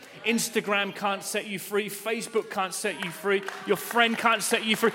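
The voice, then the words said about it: Speaker's noticeable accent. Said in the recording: “You, got the accent? ... I just came to church to hear the accent.”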